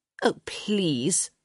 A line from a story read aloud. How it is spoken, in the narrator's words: she scoffed